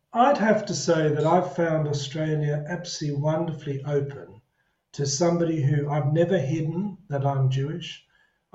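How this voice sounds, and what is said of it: South African accent. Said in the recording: “It's very hard for me to hide that I didn't come from Australia because my accent at times gives me away”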